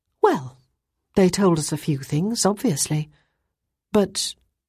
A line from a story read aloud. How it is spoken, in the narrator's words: Ruth sighed and said